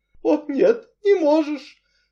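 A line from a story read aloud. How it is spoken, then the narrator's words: Muffled mutter. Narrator (Russian): глухо пробормотала миссис Ривз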